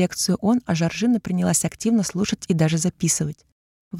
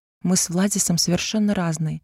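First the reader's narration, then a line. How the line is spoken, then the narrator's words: Dejected. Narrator (Russian): отозвалась я уныло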